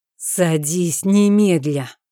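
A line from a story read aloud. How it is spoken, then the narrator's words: Through gritted teeth. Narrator (Russian): уже процедил он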